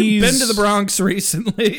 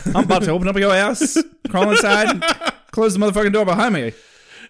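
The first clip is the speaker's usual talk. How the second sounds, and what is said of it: Put-on British accent slipping toward Bronx. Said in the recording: “I'm going to do it with a British accent ... You're kind of slipping into, like, Bronx.”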